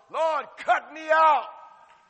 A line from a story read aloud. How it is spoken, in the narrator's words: Some of y'all are hollering